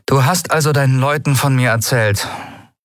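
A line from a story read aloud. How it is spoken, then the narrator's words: Toneless question. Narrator (German): fragte sie tonlos, nur um ihre Zweifel zu übertönen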